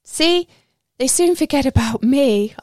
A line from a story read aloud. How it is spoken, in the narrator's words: I laugh